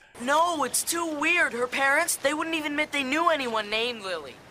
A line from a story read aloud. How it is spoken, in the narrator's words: Larry yells